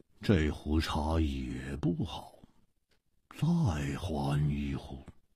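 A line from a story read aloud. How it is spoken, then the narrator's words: Cold. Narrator (Chinese): 一点红冷冷地说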